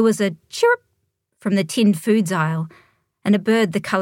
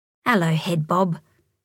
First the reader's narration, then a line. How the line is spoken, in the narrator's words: she whispered to the bird